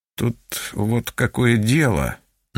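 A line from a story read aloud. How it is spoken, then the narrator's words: Mumbling. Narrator (Russian): начал мямлить он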